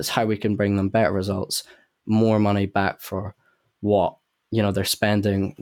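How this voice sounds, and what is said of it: Scottish Edinburgh accent. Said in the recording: “you don't have a London accent ... You grew up in Scotland, Edinburgh to be specific”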